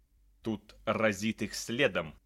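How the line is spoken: Creature hissing. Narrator (Russian): прошипело создание

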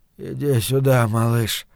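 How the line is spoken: Absent-minded mumbling. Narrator (Russian): бормотал он, не ощущая смысла собственных слов

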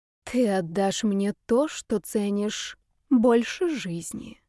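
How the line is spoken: Intimate whisper in ear. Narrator (Russian): ее шепот щекотал ему ухо

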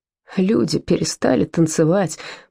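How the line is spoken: Moaned. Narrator (Russian): простонал Вольфганг

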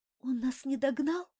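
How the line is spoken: Whisper after recovering. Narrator (Russian): прошептал мотылек, придя в себя

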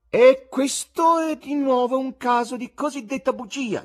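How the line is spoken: Loud bleating tenor voice. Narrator (Italian): dichiarò egli con alta voce tenorile da caprone

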